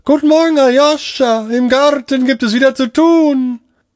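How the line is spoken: Calling from window. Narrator (German): rief aus dem Fenster

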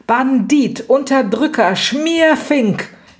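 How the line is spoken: Piercing scream while beaten. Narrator (German): schrie Lydia, von Raffaela gezaust und von Lepo zerdroschen, dass es weithin den Gang und das Haus durchgellte

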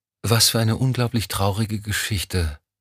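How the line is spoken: Sighing. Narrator (German): seufzte Lorna

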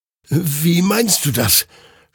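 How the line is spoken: Confused stammer. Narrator (German): stammelte Hektor verwirrt

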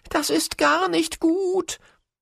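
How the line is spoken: Excited hare calling. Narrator (German): rief der Hase aufgeregt

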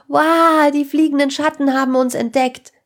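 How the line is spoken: Loud call. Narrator (German): rief Sarah laut

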